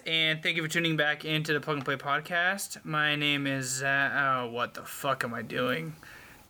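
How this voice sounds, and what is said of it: Tired-sounding voice. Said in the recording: “He sounds pretty tired.”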